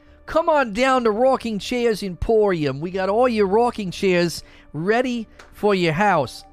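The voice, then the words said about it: Put-on salesman accent, unidentified. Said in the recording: “I don't know what accent this is, but I just went with it.”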